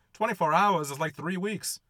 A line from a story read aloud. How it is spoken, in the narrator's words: One voice shouts out